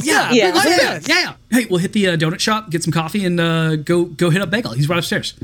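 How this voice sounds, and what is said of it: Impression of Scott Campbell. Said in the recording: “good Scott Campbell impression.”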